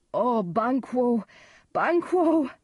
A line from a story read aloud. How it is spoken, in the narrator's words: cried Macduff